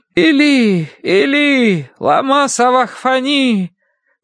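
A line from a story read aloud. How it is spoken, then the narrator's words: Loud anguished cry. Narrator (Russian): возопил Иисус громким голосом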